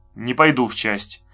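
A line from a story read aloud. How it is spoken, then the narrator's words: Angry. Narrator (Russian): сказал Беденко, зло сузив глаза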